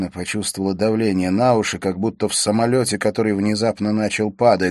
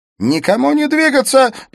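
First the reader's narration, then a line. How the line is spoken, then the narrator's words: Shouted. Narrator (Russian): прокричал Смит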